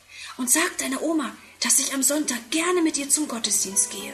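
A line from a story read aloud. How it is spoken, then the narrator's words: Whispering. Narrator (German): flüstert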